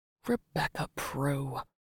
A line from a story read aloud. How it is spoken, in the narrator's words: he whispered under his breath